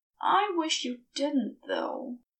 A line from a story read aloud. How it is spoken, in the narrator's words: said, then added mournfully